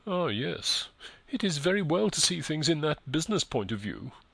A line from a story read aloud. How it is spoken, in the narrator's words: murmured Eustacia, with a smothered fire of feeling